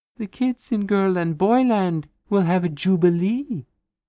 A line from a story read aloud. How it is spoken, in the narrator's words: sang, and sweetly